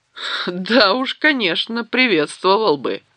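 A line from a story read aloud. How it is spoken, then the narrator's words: Loud laughter. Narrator (Russian): расхохотался Гендальф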